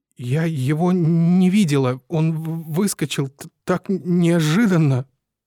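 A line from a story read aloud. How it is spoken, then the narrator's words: Muffled stammering repetition. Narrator (Russian): Зажав рот рукой, она снова и снова, заикаясь, твердила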